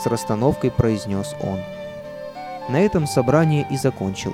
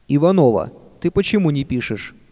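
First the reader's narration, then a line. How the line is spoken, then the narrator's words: Stern question. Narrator (Russian): строго спросил учитель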